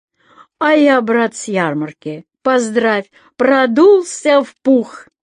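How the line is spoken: Loud, expressive. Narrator (Russian): Ваня начал громко с выражением

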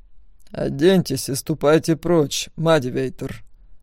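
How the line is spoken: Through gritted teeth. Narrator (Russian): процедил Аркейн

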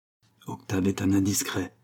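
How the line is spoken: Pleased, smug murmur. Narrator (French): murmura le fat, enchanté que son aventure avec la comtesse Artoff courut le monde

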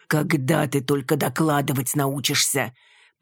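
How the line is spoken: Grumbling. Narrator (Russian): проворчал Мечислав

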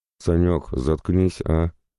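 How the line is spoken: Groan. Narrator (Russian): простонал Макс

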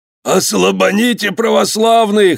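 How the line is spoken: Hoarse wheezing. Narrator (Russian): хрипел Афонька

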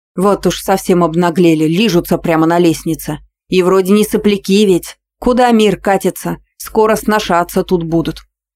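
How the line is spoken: Loud scolding. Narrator (Russian): Громко ругалась

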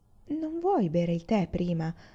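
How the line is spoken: Pleasant-voiced suggestion. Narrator (Italian): suggerì Mouse con voce gradevole

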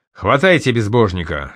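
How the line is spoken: Stern order. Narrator (Russian): строго приказал пьяный в кавычках торговец

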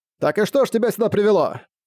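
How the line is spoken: Loud question. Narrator (Russian): Громким голосом поинтересовался капитан Тиё

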